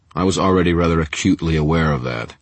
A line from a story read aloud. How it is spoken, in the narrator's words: Marconi said, his voice dry